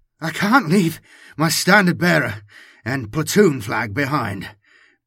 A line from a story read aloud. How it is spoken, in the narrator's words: panted Jonas